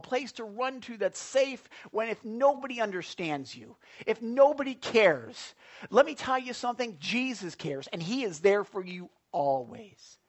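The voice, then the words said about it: Loud excited yelling. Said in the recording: “I'm yelling... I realize I shouldn't be yelling because the folks at the phone were like, well, we got to turn down the volume. Why is he yelling so much?”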